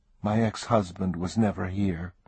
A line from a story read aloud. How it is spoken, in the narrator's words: said softly